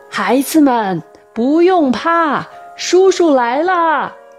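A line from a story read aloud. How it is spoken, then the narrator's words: Shouting. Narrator (Chinese): 夏叔叔正一边呼喊着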